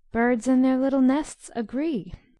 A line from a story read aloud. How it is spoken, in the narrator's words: sang Beth, the peacemaker